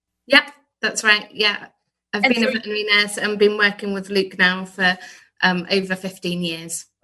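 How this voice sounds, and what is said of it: British accent. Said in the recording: “folks from across the pond? They just sound better than us ... just a different accent.”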